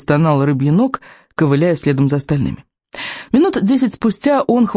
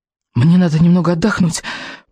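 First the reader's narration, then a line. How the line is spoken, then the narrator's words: Weary wheeze. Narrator (Russian): просипел бедняга Рыбьенок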